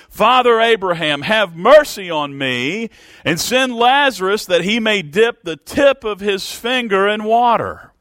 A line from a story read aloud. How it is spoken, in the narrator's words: This man cried and said